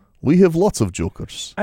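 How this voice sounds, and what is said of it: Put-on foreign accent. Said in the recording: “Just so you can use the accent.”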